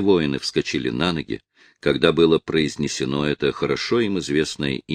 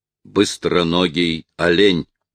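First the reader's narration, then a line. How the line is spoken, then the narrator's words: Loud, gloating. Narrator (Russian): выражением злорадства, и он громко произнес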